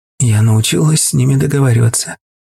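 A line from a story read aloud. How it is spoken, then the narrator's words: Quick, clear reply. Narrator (Russian): быстро и четко ответила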